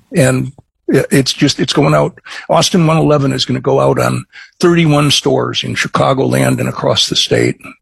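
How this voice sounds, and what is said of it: Midwestern American accent. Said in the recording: “I'm a Chicagoan, as you might be able to guess from my Midwestern accent.”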